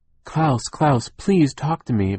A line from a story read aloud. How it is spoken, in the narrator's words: Violet cried